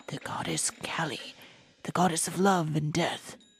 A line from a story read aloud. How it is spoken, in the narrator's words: recognizing the statue, whispered